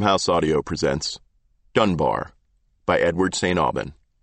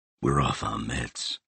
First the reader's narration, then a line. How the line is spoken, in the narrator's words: whispered Dunbar